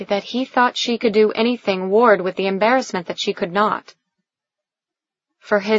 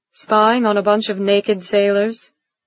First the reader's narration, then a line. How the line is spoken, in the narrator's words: She laughed with him